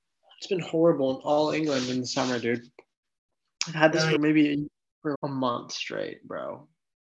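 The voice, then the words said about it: Congested, stuffy nasal voice. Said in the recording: “I got the worst allergies. That's why I sound so congested.”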